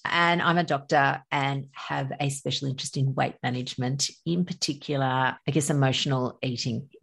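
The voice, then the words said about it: Australian accent. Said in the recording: “I'm from Australia. You can probably tell by my accent.”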